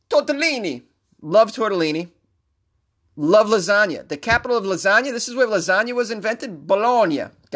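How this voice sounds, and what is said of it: Put-on Italian accent. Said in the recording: “with this sexy-ass Italian accent, I'm killing it”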